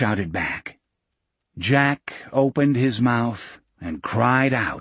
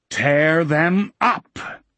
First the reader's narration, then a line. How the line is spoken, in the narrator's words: Jack Sawyer, Jason de Loessian, bellowed